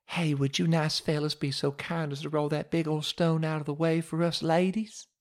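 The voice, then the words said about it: Put-on Southern accent. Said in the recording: “Maybe a little southern accent would curry a little favor.”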